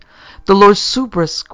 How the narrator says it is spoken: cried the servant, plainly appalled at her forgetfulness

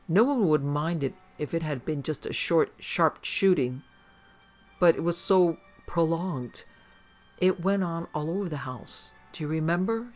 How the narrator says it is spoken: she said timidly

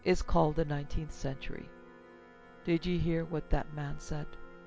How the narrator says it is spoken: said Strickland very calmly

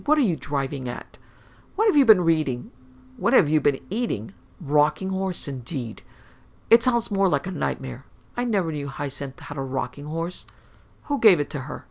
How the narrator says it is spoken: exclaimed Claude angrily

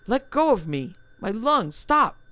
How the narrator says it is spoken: gasped convulsively, as if his ribs were crushing the breath from him

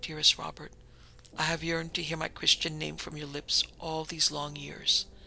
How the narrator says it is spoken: she sighed

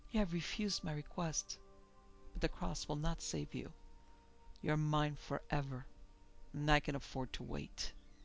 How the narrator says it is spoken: she whispered

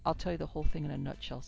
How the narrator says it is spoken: said Lou calmly

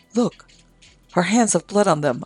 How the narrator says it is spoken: another exclaimed

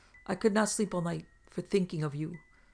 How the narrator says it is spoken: exclaimed Black Burton on seeing them

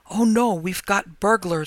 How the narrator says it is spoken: I gasped

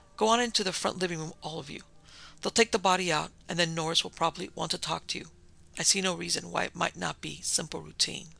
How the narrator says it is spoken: Park said quickly

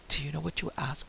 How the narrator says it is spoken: He whispered

